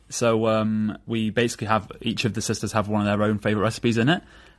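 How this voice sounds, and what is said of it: Northern English accent. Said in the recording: “I have the northern accent, even though I've got an Italian name, so I was raised in the Midlands”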